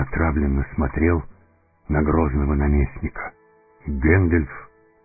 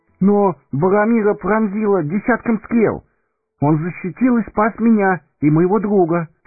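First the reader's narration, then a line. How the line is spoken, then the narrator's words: Babbling. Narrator (Russian): пролепетал Пипин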